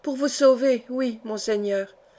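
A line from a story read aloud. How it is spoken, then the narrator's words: Kneeling murmur. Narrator (French): murmura agenouillée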